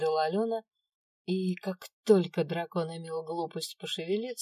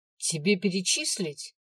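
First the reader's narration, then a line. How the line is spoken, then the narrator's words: Angry question. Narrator (Russian): зло вопросила я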